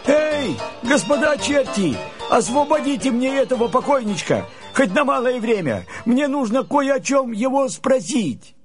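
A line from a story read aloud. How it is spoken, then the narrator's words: Shouting. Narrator (Russian): Андрей закричал чертям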